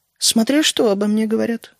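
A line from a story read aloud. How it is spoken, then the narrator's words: Calm queen's remark. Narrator (Russian): спокойно заметила королева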